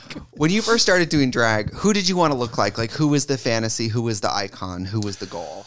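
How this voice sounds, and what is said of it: Usual voice. Nothing is said of it.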